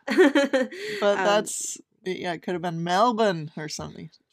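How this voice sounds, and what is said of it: Put-on accent. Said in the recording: “I'm so sorry for that accent.”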